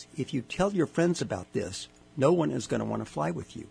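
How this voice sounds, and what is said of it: Very serious voice. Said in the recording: “in a real serious voice”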